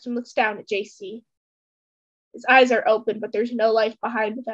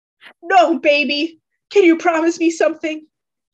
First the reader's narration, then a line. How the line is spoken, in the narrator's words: JC is hardly comprehensible through his sobs